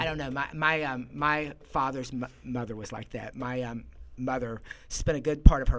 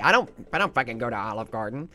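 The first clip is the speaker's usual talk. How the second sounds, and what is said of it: Imitates another person's voice. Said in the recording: “great impression ... of my mother”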